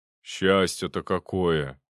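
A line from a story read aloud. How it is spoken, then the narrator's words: Envious grumble. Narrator (Russian): с явной завистью пробурчал Шуклин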